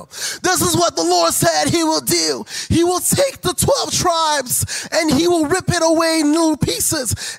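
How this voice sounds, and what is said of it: Prophet character voice with accent. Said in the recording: “Why does he have an accent?”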